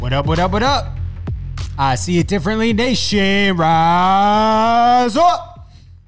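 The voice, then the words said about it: Public address announcer voice. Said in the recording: “a new little announcer voice I was trying ... Public address announcer”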